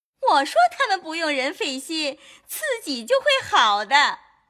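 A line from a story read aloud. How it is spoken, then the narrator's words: Laughing. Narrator (Chinese): 凤姐笑道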